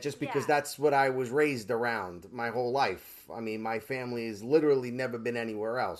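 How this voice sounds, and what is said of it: Brooklyn accent. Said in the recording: “you're absolutely Brooklyn accent for sure”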